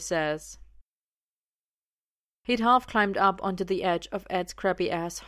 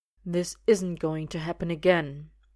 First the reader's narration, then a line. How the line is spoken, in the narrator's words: he says, quietly, but with that ring of authority